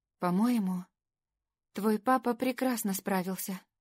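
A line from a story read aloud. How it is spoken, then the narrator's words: Quiet. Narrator (Russian): тихо сказала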